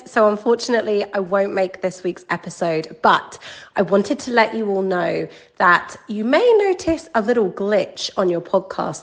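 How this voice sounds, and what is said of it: Sick-sounding voice. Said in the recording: “As you can probably hear from my voice, I am still suffering with a little bit of illness”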